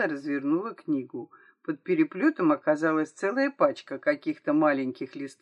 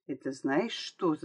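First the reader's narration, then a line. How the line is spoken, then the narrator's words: Whispering. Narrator (Russian): зашептала Стелла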